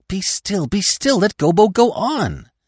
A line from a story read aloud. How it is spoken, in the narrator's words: the others cried out at once